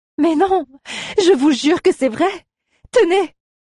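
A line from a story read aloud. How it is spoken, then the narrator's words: Exclaimed. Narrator (French): s'écria Aléa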